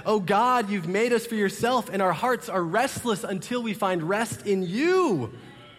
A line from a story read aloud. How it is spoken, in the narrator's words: Your heart shouts out, like Augustine once said